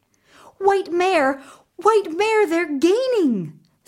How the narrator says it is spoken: Fifine gasped

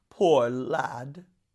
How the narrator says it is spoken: rumbled the cutthroat

